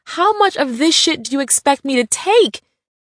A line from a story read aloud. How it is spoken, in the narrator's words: I yelled, tears streaming down my cheeks